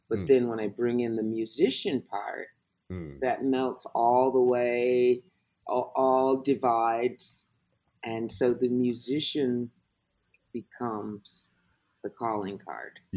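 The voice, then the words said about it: American accent. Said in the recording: “they hear the American accent”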